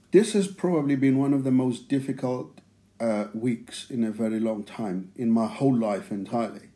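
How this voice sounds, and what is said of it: South African accent. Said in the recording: “can't hear it in my accent, I am a black man, and I grew up in South Africa”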